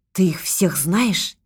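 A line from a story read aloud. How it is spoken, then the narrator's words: Quiet question. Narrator (Russian): тихо спросила Людмила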